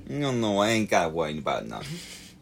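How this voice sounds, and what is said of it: Exaggerated East Coast accent. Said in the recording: “sorry, East Coasters ... Everyone from the East Coast. That can't have been an accent from anywhere”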